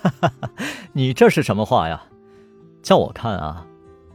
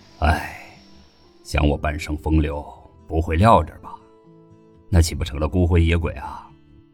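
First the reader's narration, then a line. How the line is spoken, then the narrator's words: Sighing. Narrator (Chinese): 云豹叹道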